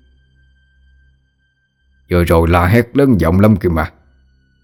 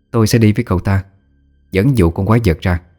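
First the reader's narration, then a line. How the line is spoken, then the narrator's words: Cold. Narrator (Vietnamese): quý bà lạnh lùng nói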